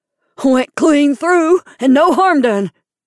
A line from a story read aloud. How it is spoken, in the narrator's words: cried jubilantly